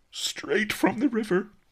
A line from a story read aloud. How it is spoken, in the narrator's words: sobbed Master Li